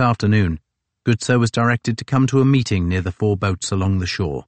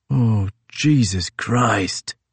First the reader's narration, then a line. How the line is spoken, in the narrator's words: hissed Couch